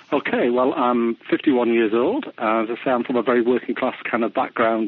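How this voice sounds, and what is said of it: British English accent. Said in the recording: “as people can probably tell hearing your accent, you are from the UK”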